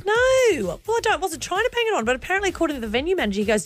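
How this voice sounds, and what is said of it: Australian accent. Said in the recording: “you sound Aussie, but you don't sound like you're banging it on ... they don't get any more Australian than you”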